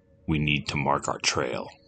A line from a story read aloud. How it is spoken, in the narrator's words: said solemnly